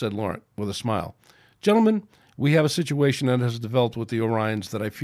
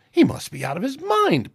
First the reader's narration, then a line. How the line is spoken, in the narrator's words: piped Mbenga